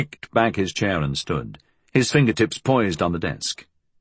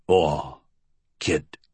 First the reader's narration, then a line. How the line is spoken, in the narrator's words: Flood said in his low rumble